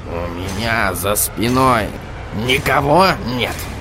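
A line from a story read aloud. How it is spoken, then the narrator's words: Choked, strained question. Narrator (Russian): Господин Кноп сдавленным голосом спросил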